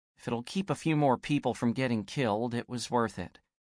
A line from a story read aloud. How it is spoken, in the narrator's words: quietly